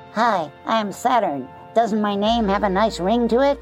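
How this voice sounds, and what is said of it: High-pitched helium-like voice. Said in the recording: “If I spoke in my helium voice, it would sound like this”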